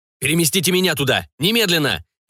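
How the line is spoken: Barking. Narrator (Russian): рявкнул Камиль

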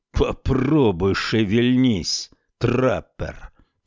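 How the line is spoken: Growl. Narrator (Russian): прорычал Салиман

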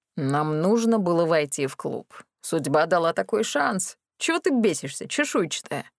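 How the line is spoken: Matching tone reply. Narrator (Russian): В тон мне ответил Кракен

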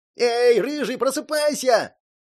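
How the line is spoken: Yelling from the corridor. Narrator (Russian): заорал из коридора Джерри

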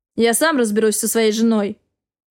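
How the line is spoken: Rude reply. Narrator (Russian): грубо ответил

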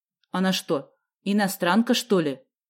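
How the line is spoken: Stern question. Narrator (Russian): строго спросила тогда Вава

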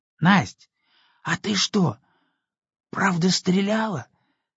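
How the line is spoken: Whispered question. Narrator (Russian): спросил почему-то шепотом

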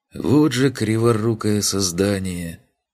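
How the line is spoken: Affectionate muttering. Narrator (Russian): ласково пробурчал он

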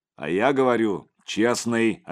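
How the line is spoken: Barked insistence. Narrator (Russian): рявкнул Михалыч

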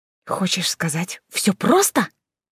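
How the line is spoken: Whispered. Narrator (Russian): прошептала Алиса

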